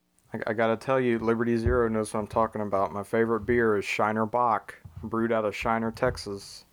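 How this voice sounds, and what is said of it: Southern US accent. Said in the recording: “I thought I heard a southern accent there for a second ... How southern is that there?”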